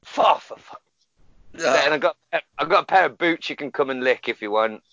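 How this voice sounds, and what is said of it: Put-on Glaswegian Scottish accent. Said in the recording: “is this racist if I do this voice? I'm from Glasgow.”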